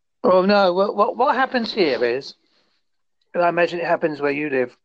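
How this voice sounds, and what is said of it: English accent, Essex and Devon mix. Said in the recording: “I'm very much an English person. I have an Essex, Devon accent... So it's not your typical, hello, how are you?... I picked up a bit of Devonish”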